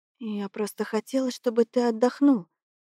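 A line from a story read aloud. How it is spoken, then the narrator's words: Quiet speech. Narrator (Russian): тихо говорит она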